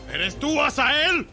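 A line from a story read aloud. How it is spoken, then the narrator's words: Shouting. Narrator (Spanish): le gritó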